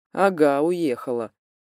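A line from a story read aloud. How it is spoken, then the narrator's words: Skeptical snort. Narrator (Russian): хмыкнул Демьян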